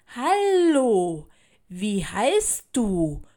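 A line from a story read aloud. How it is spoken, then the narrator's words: Slow, clear question. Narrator (German): fragte langsam und deutlich, damit sie mich verstehen konnte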